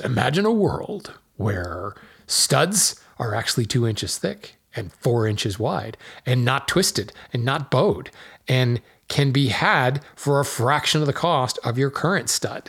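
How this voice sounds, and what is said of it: Movie trailer announcer voice. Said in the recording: “my best movie trailer voice”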